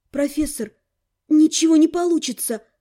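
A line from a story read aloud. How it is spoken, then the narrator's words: Breathed out. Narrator (Russian): выдохнула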